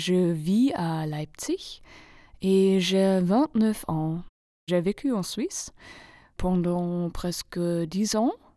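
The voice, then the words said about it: Non-native accent speaking French. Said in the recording (French): “j'ai un accent très bizarre ... Je ne suis pas française”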